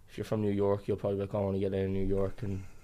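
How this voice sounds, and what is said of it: Irish accent. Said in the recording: “you got quite a Irish accent”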